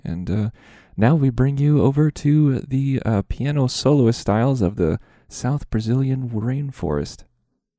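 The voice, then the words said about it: Close-mic NPR radio announcer voice. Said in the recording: “Why are you kissing your microphone? ... my best NPR impression ... it was perfect NPR”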